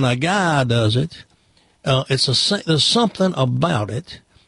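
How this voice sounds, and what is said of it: Usual voice. Nothing is said of it.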